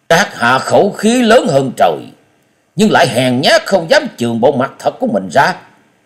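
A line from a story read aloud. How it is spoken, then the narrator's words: Angry snort. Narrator (Vietnamese): tức giận hừ lên một tiếng và nói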